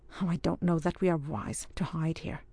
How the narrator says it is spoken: murmured Ardroy

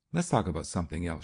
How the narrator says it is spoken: she said quickly

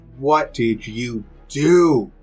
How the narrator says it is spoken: just yells

